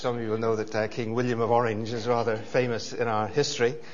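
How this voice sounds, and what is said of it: Northern Irish Belfast accent. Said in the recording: “that's what the accent is. It's from Belfast, Northern Ireland”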